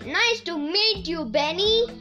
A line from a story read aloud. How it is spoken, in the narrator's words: he said in his too loud voice